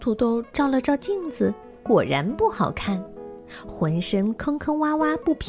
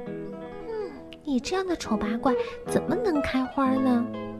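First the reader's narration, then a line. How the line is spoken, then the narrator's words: Muttering. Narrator (Chinese): 兰花嘟囔着说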